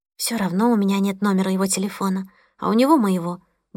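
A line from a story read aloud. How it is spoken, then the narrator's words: Mumbling. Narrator (Russian): бормотала Мия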